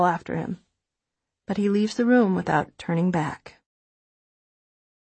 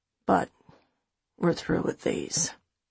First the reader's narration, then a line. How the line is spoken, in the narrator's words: he says softly